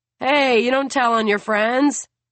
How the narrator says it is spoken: Benji shouts

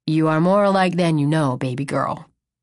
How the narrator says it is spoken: chuckles

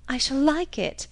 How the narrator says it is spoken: she cried

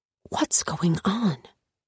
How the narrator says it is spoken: Avery whispered

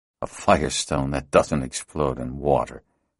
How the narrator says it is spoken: Morin muttered to himself

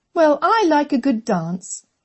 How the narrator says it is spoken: Catherine said cheerfully

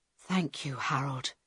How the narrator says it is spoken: Carl whispered

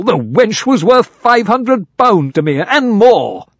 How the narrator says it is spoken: cried Sir Daniel

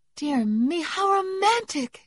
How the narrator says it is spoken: exclaimed Meg

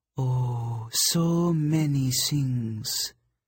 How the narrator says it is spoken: the snow goddess purred

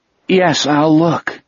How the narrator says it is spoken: Jack said miserably

